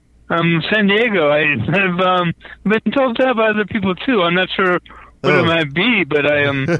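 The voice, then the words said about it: Slight accent, somewhat British-sounding. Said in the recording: “I'm hearing an accent there... It sounded kind of a British accent at first... I heard a little bit of an accent, too.”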